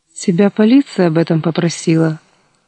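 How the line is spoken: Dry question. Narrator (Russian): Сухо поинтересовалась Соня

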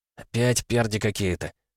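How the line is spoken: Whispered from behind. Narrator (Russian): прошептали за спиной

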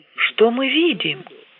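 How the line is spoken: Exclamation. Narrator (Russian): воскликнул Кар

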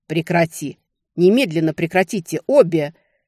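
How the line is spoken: Thunderous roar. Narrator (Russian): Это больше походило на рычание или раскаты грома

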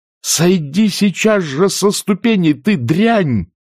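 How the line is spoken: Shouting. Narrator (Russian): закричала она

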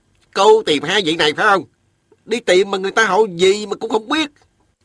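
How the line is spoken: Grumbling. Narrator (Vietnamese): Miệng hắn cứ cằn nhằn

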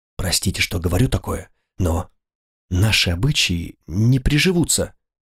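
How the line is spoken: Quiet mutter. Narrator (Russian): Он пробормотал тихонько

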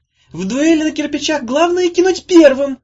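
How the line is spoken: Shout over crowd noise. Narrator (Russian): заглушив на миг шум толпы, крикнула Улита

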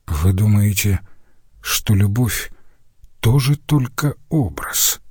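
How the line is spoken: Very quiet question. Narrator (Russian): Этот вопрос прозвучал совсем тихо

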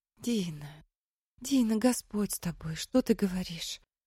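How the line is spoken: Frightened whisper. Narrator (Russian): Шепотом испуганно повторяла Мэри

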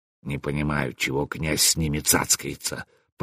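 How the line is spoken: Grumbling bass voice. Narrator (Russian): проворчал бас

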